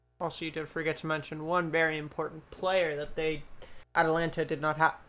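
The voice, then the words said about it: American accent. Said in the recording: “I'm speaking with an American accent ... I'm pronouncing these things with an American accent”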